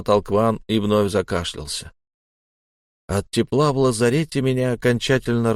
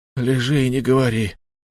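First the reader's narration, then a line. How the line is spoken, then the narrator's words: Lifeless voice. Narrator (Russian): мертвым голосом произнес Кван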